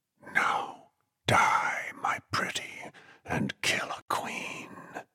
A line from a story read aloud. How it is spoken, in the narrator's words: Flagg whispered